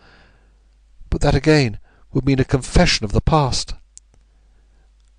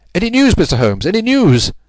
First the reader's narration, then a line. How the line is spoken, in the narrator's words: he cried